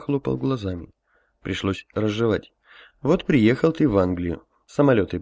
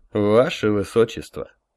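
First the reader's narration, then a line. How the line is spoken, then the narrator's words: Solemn. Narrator (Russian): торжественно сказал я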